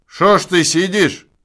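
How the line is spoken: Man shouting. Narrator (Russian): крикнул охотник на лесника

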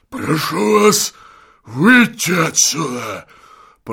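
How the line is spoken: Hoarse rasp. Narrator (Russian): прохрипел он

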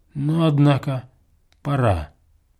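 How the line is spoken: Businesslike, almost bored tone. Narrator (Russian): промолвил он каким-то деловым, почти скучливым тоном

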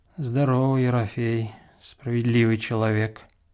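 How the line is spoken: Dejected, gloomy voice. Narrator (Russian): отвечал Касьян унылым голосом

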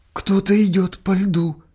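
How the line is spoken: Sudden hoarse frightened voice. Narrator (Russian): сказала вдруг молодая женщина неестественно хриплым голосом, словно с испугом

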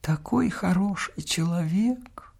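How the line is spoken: Old woman whispering. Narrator (Russian): шепчет старуха

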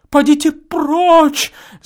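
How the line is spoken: Terrified female scream. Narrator (Russian): закричала она, и ужас исказил ее благородные прекрасные черты

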